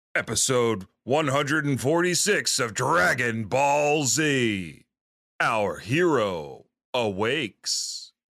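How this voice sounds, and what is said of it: Dramatic announcer voice. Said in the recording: “do my favorite announcer voice”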